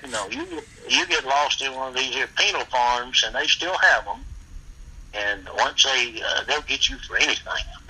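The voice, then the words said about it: Southern US accent. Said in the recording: “I had that old Southern accent”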